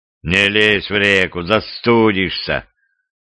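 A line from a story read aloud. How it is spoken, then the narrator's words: Sighing. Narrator (Russian): вздохнул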